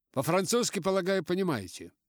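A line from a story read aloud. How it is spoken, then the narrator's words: Curt, clipped question. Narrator (Russian): отрывисто спросил он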